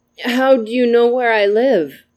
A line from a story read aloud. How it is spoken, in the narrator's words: asked sleepily